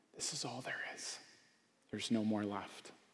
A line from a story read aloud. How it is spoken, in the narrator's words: mother walks around the table pouring the water, she whispers